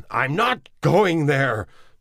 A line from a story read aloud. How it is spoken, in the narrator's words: Neville shouted